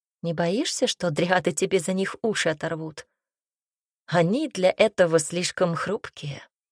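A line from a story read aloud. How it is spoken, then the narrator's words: Snort. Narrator (Russian): хмыкнул Салар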